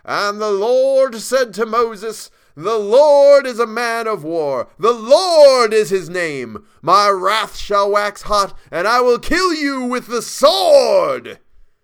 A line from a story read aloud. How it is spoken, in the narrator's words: the minister was a good man, but when he bellowed